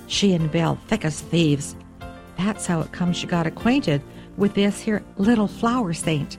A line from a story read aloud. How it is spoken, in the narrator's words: Then he added, almost in a whisper